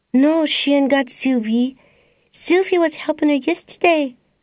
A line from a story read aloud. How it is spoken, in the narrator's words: piped Bibi